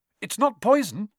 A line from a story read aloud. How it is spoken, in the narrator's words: said Harry anxiously